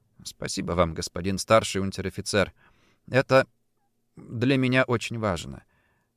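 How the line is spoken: Quiet reply. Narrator (Russian): ответил я тихо

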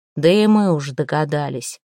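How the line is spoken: Gloomy. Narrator (Russian): мрачно кивнул воевода

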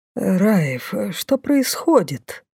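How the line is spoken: Low mutter. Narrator (Russian): вполголоса пробормотал лорд Лайс

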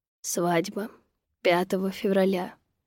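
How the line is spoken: Calm explanation. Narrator (Russian): пояснил так спокойно

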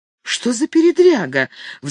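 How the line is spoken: Excited exclamation. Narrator (Russian): взволнованно воскликнула Катарин

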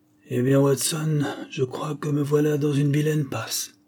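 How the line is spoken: Weak, little carefree. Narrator (French): me dit-il d'une voix faible, où il y avait pourtant peu de sa vieille insouciance

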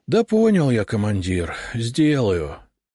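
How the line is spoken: Sad sigh. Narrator (Russian): грустно вздохнул Саня

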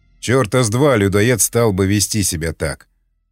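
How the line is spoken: Grumbling. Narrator (Russian): Проворчал варяг

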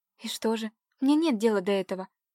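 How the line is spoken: Nervous babbling. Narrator (Russian): пролепетала Катя нервно

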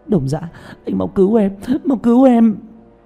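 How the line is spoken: Frantic crying plea. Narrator (Vietnamese): Nàng vội vàng nắm tay hắn khóc lóc

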